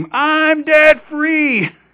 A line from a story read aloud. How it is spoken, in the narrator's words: scream